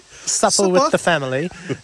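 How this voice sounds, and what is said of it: Bad put-on English accent. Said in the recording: “We're in England now. ... That's the worst accent.”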